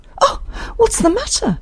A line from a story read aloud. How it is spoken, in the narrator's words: exclaimed Isabel